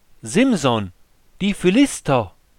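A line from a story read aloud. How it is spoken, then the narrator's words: Called out. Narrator (German): Delila rief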